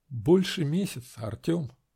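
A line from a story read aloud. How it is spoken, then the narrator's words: Quiet. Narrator (Russian): Начала я тихо, не глядя на него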